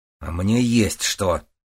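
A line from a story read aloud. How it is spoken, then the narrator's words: Matching snap, bearded man. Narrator (Russian): в тон ему огрызнулся бородач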